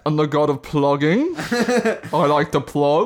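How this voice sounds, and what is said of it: Thor voice, light English-sounding accent. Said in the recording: “Doing an impression of an Australian person doing an American accent... Not American... A god accent... It's like an English sort of thing... kind of English... Light English”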